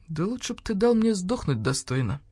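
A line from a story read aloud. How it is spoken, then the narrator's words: Gloomy. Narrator (Russian): мрачно сказал полкан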